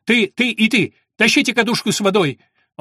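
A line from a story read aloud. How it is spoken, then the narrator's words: Shout. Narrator (Russian): Том крикнул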